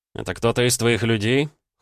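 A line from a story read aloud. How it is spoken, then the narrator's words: Cold question. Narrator (Russian): холодно поинтересовался я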